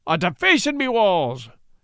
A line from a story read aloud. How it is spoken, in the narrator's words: cried Pat